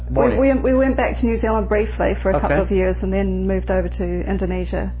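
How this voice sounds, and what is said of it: New Zealand accent. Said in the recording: “Sounds pretty Kiwi to me.”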